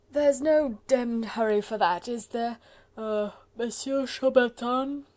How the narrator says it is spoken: came from the slowly wakening Sir Percy in somewhat thick, heavy accents, accompanied by a prolonged yawn

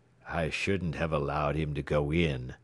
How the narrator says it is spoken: he muttered repeatedly

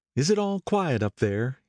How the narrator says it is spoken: he asked anxiously

